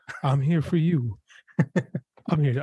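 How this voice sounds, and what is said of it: Whispered, sweet-talking voice. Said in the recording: “Whisper sweet nothings”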